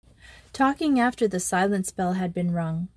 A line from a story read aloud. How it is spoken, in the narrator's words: said Gertrude